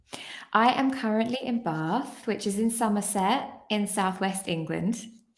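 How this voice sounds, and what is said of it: British English accent. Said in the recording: “UK, hence the accent.”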